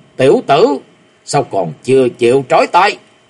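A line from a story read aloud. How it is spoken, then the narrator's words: Loud roar. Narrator (Vietnamese): có tiếng gầm lớn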